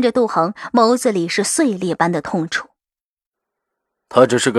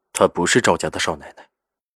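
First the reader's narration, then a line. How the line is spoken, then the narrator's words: Cold tone. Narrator (Chinese): 赵世南冷冷说道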